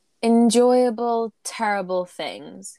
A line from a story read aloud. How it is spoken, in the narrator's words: he asks slowly